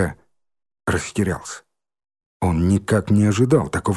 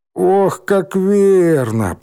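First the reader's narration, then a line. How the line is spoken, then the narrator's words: Groaning. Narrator (Russian): простонал Рыжий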